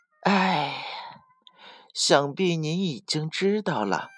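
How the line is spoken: Sighing. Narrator (Chinese): 狐狸叹了口气说

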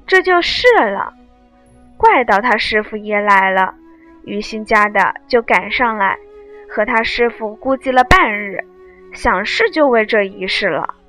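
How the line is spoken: Laughing. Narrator (Chinese): 惜春笑道

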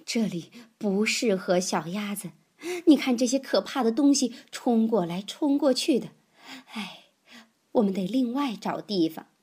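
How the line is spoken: Breathless. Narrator (Chinese): 她喘了一会儿，才说

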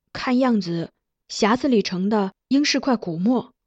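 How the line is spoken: Soft reply. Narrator (Chinese): 轻声应道

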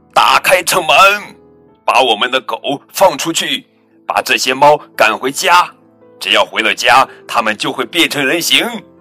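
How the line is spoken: Loud shout. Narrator (Chinese): 麦瑞克大声喊道

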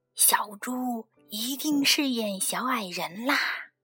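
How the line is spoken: Quiet reply. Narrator (Chinese): 猪爸爸小声的回答

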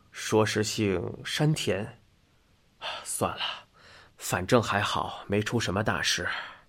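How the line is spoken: Muttering. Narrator (Chinese): 右太郎嘟囔道

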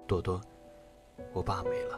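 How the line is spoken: Hoarse voice. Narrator (Chinese): 他的声音是沙哑的

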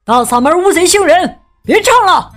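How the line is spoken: Loud shout. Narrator (Chinese): 有人大喊

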